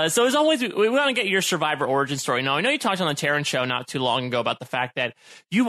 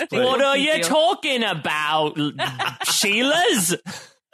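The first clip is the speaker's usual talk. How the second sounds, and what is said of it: Slow put-on Australian accent. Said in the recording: “I don't know why I slowed down. I don't know why my Australian accent is suddenly at half speed.”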